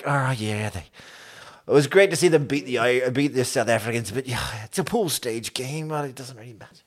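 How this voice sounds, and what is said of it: Poor put-on Irish accent. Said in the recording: “my Irish accent's getting worse”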